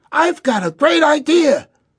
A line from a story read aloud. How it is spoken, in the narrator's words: Rex jumped up and exclaimed